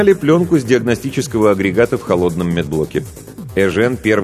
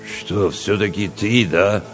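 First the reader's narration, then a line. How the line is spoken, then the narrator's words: Confused mumble. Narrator (Russian): Растерянно пробурчал Чевчаридзе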